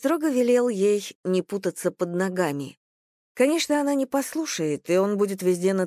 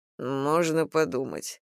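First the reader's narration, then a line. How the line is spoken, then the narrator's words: Muttering. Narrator (Russian): пробормотал Логов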